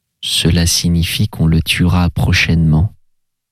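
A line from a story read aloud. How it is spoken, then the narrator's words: Plain. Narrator (French): dit l'oblat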